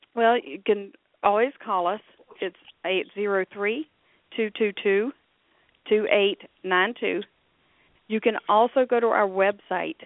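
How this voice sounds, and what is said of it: Sick-sounding voice. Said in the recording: “I apologize for my voice. I've had a cold.”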